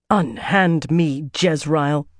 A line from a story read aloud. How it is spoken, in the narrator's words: Katarina snarled